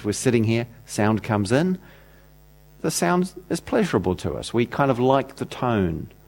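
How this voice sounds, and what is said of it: New Zealand accent. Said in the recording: “that accent ... nice Kiwi accent”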